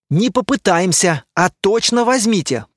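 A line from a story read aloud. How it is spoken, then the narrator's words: Grumbling. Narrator (Russian): проворчал Лирин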